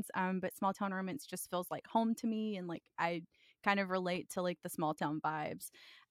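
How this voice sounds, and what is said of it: Southern American accent. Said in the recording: “I'm Southern. I'm sure y'all can all tell that by the way that my voice sounds.”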